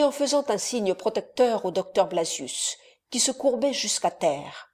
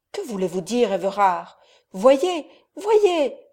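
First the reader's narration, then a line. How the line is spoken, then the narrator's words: Young man exclaiming. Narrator (French): s'écria le jeune homme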